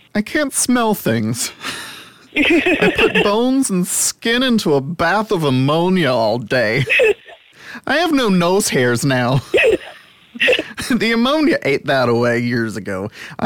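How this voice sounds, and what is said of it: Put-on Texas accent drifting, degenerating. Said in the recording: “I don't know where my accent was going with that, but I'm proud of my characterization ... It degenerates rapidly. ... it took place in Lubbock, Texas, so it slowly went from being like Midwestern to alien.”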